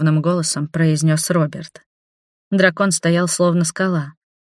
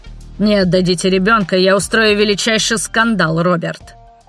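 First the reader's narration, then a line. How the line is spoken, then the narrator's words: Growling. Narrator (Russian): прорычал Патрик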